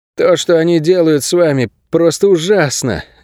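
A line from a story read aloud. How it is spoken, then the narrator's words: Breathless. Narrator (Russian): выдохнул бывший пленник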